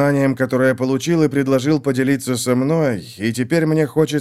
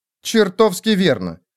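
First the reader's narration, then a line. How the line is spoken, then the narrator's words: Indignant. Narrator (Russian): возмущенно сказала она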